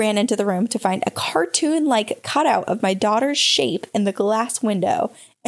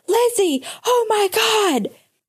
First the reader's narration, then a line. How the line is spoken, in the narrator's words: We suddenly heard Noah screaming from the living room